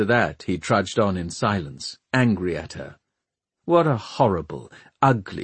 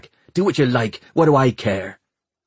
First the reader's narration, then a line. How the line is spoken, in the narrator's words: Hester snapped back